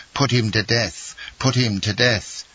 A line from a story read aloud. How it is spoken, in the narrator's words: The people all took part against Andrea, and 20,000 voices cried